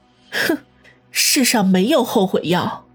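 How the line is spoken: Sneering cold laugh. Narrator (Chinese): 方心 冷笑说道

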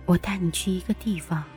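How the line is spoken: Soft, smiling. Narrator (Chinese): 蓝衣女鬼唇角弯了弯，眼底露出一抹笑意，轻声说

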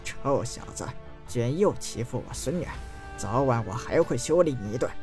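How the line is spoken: Old man, low voice. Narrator (Chinese): 老人低声道

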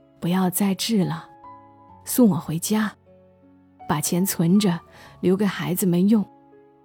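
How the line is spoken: Gentle. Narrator (Chinese): 难得温柔的对着姑父说

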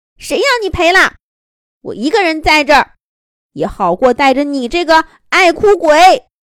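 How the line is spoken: Angry shouting. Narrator (Chinese): 更来脾气了，大声嚷嚷道

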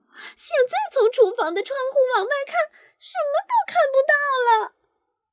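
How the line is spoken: Shouting. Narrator (Chinese): 昆斯特太太喊道

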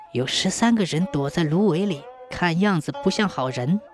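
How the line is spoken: Low voice. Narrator (Chinese): 杨阿嫂过去低声说

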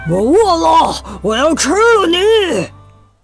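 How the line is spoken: Cat roaring. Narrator (Chinese): 一只大猫，它对着小鸡吼道

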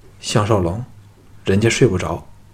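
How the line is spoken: Cold. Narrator (Chinese): 冷冷地说

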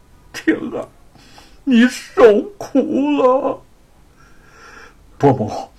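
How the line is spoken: Sobbing. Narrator (Chinese): 叶云早已泣不成声，哭道

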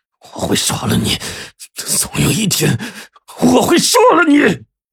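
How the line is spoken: Deep hoarse roar. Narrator (Chinese): 贺猛 从胸腔的深处发出了一声嘶吼

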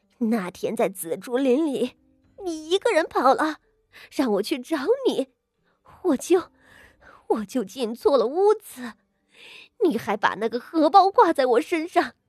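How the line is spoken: Through gritted teeth, pained. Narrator (Chinese): 他不顾剧痛难忍，咬牙道

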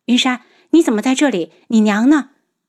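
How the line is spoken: Hurried. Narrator (Chinese): 楚清瑶……急忙道

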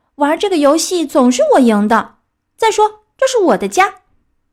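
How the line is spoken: Crying out. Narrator (Chinese): 小鸭叫了起来

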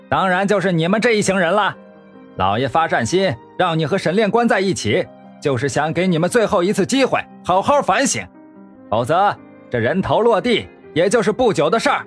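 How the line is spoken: Sneering. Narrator (Chinese): 牢狱头头冷笑

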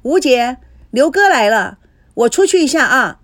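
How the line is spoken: Calling out to another room. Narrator (Chinese): 孙娜冲着卫生间喊着

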